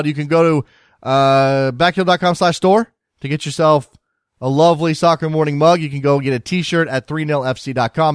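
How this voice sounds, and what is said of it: Hoarse, failing voice. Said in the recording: “Excuse me, my voice is going.”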